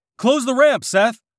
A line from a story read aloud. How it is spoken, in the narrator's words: John shouted